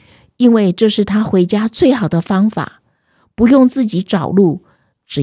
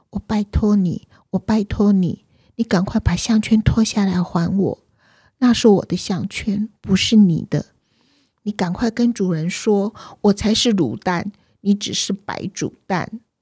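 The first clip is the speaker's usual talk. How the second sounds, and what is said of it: Soft, gentle pleading voice. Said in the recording (Chinese): “卤蛋不敢对假卤蛋大小声说话了，他轻声细语的哀求假卤蛋说”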